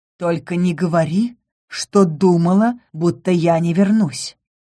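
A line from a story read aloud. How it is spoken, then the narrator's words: Calm remark. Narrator (Russian): спокойно заметил принц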